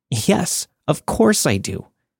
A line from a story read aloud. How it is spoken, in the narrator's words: In desperation, I blurted out